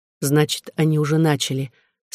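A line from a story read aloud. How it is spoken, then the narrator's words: Calm. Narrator (Russian): спокойно сказала Онега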